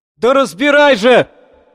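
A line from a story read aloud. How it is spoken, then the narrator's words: Shouted almost in unison. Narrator (Russian): Почти в один голос крикнули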